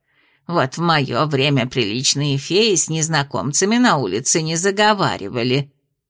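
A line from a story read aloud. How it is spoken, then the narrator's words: Disapproving grumble. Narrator (Russian): Дама неодобрительно пробурчав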